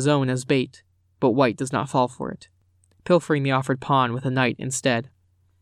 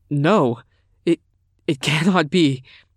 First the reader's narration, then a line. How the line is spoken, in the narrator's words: he stammers